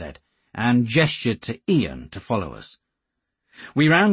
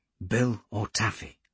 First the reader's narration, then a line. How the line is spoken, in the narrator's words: he breathed